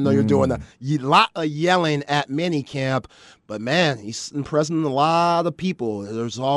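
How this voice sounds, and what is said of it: Usual voice. Nothing is said of it.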